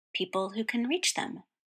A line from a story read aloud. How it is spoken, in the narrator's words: Roy murmured